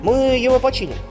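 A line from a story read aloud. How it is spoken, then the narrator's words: Plain. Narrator (Russian): сказал первый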